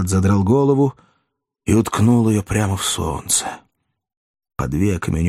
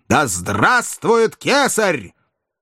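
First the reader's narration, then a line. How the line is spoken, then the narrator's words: Terrible soldiers' mass shout. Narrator (Russian): страшно прокричали солдаты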